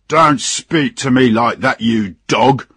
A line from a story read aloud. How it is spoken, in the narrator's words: shouted the captain